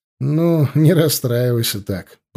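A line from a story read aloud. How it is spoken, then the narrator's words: After laughing. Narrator (Russian): просмеявшись, сказал я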